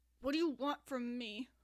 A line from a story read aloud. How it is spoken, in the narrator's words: Neil asked through his teeth